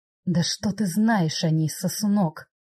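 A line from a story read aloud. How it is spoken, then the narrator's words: Growled. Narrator (Russian): Рыкнул Аль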